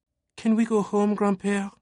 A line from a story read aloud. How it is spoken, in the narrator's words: Sophie begged, feeling tired